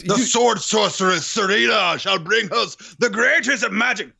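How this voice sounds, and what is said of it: Theatrical fantasy-style put-on accent. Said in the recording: “And your accent. Mwah. ... Perfect for this land.”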